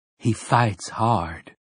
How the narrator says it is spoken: Susanna said

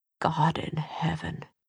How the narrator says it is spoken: he whispered

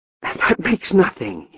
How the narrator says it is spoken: he cried

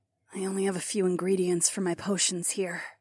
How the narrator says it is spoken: Taslin muttered

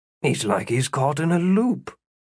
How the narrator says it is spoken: Philip muttered

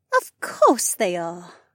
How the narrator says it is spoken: Janel purred

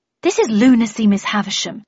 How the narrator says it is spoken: I replied indignantly

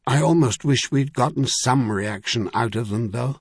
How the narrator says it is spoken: Caleb said in a far more thoughtful tone

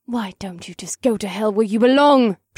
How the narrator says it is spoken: snapped

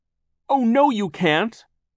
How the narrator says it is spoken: Violet cried

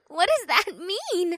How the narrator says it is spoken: Una giggled

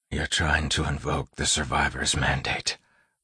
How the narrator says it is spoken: Wax whispered

